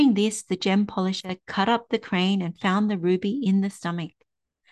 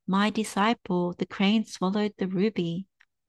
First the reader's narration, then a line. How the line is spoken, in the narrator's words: he said softly